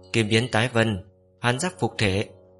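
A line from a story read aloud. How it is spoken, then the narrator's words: Loud chant. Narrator (Vietnamese): y lớn tiếng hô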